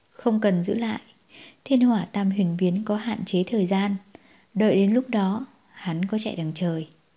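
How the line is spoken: Cold laugh. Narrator (Vietnamese): Xâm La Quỷ Tôn chợt cười lạnh nói

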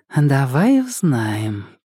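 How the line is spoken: Purring. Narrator (Russian): промурлыкала она

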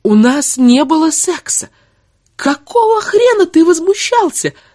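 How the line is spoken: Woman yelling. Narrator (Russian): заорала она

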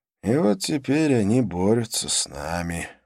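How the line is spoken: Dejected. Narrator (Russian): уныло заключил проводник

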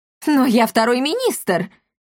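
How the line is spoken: Offended protest. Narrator (Russian): обиженно запротестовал барон Эхо

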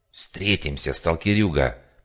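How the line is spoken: Hiss. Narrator (Russian): прошипел

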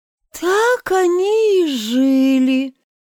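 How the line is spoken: Sleepy yawning voice. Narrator (Russian): продолжала Соня сонным голосом, зевая

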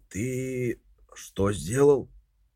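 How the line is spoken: Hoarse voice over phone. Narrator (Russian): Голос Копхема в телефоне прозвучал хрипло

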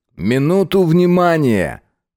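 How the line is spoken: Loud announcement. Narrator (Russian): произнес громко

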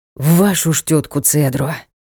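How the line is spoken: Exhaled exclamation. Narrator (Russian): выдохнул рыцарь

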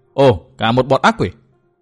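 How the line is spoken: Loud shout. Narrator (Vietnamese): Tư Mã Minh hét to

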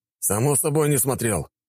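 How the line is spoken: Displeased snort. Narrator (Russian): недовольно фыркнул князь

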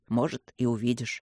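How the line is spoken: Muttered. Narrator (Russian): пробормотал Люк

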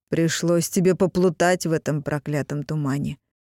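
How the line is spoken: Amused snort. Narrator (Russian): хмыкнул второй карлинг

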